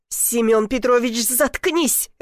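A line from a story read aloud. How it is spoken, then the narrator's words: Barking. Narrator (Russian): рявкнула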